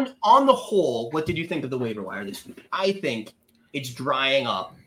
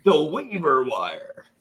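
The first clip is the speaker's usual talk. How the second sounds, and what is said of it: TV announcer voice. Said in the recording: “I can use my TV announcer voice.”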